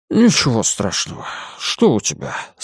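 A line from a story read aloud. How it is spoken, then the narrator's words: Muffled voice. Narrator (Russian): спросил он приглушенным голосом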